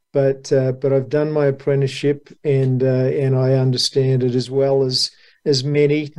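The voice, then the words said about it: Australian accent. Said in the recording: “Someone with an Aussie accent”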